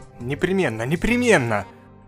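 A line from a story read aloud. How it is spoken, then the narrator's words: Resolute mutter. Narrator (Russian): Решительно пробормотал доктор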